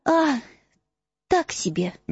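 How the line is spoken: Trembling voice. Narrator (Russian): дрожащим голосом ответила Гермиона

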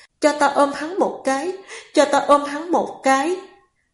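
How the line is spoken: Anguished pleading. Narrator (Vietnamese): nàng liền đau lòng, mở miệng cầu xin

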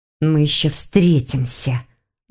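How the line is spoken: Angry hiss. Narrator (Russian): зло прошипела Клара

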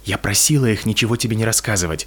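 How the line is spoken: Whispered. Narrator (Russian): прошептала Петунья

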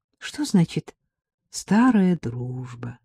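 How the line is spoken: Sad. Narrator (Russian): сказала она грустно

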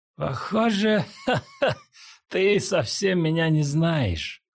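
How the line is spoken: Laughing. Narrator (Russian): рассмеялся Джо Линь

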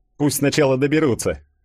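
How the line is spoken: Snorting. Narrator (Russian): хмыкнул Фадеев

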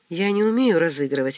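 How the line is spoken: Soft objection. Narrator (Russian): мягко возразила Лидия

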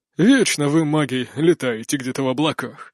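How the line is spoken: Grumbling. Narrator (Russian): проворчал первый советник

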